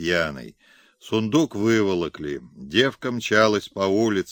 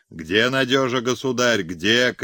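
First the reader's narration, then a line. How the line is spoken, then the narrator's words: Frantic shout, beside herself. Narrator (Russian): кричала она, не помня себя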